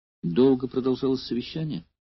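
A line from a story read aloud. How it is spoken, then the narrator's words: Kind, gentle question. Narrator (Russian): спросила Эвтибида, глядя доброжелательно и ласково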